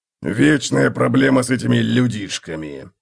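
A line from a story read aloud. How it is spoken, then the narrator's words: Grumbling. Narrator (Russian): пробурчал Готрек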